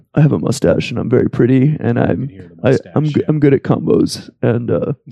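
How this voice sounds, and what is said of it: Imitates another person's voice. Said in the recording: “this is the best Pharaoh impression of all time ... It's uncanny, really ... he's a lot quieter”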